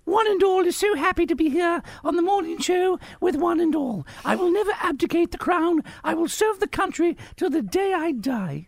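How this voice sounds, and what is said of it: Impression of the Queen's accent. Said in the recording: “your queenie accent is fantastic.”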